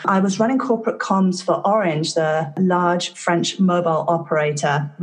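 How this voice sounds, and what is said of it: London English accent. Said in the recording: “as you can probably tell from my accent, I started out my career in London.”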